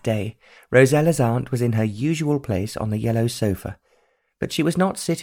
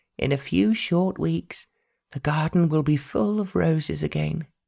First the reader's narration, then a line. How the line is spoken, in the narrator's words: Aunt Beatrice said dreamily